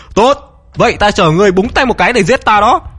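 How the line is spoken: Loud laugh. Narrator (Vietnamese): cười to

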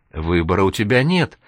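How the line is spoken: Cheerful concluding. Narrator (Russian): радостно заключил начальник, видя, что Серега на него не сердится и вообще находится в нормальном расположении духа

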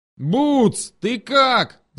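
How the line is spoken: Yelled. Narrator (Russian): заорал Осипов

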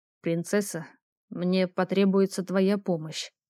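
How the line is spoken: Mumbled through closed lips. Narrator (Russian): не разжимая губ, пробормотал Ровус

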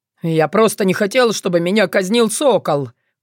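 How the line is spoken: Shouted. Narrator (Russian): крикнул наемник

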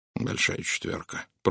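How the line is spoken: Muttered. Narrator (Russian): пробормотал Пуаро

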